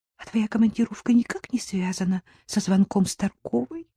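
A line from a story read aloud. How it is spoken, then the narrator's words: Whisper. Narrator (Russian): прошептала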